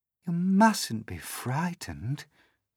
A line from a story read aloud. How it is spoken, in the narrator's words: the ladybird said kindly